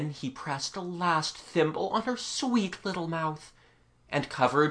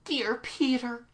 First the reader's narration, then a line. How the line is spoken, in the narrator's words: she cried